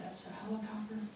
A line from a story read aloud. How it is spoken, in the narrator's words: answered the whispering voice